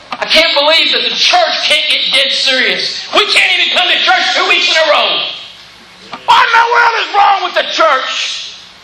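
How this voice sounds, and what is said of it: Yelling. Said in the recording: “I'm sorry for yelling.”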